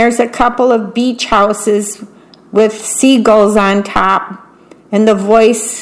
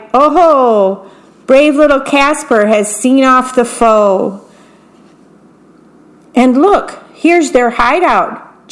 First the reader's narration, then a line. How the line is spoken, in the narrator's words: Jack hollered with joy